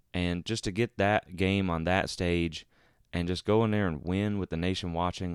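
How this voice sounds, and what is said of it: Sick, rough-sounding voice. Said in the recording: “As you can maybe tell by my voice, ... I actually have been under the weather for the past few days ... this is like my flu game podcast ... I'm sorry if my voice sounds terrible.”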